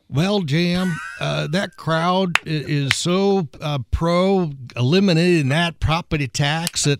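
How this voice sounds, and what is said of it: Imitates another person's voice. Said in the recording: “I do a really good Senator Luke Kenley impersonation.”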